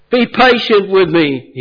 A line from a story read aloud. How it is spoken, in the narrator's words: begged